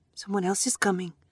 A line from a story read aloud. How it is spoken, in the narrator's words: I said